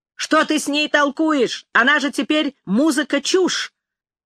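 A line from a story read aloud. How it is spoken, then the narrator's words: Distant shout. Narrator (Russian): Павлуша крикнул с другого конца коридора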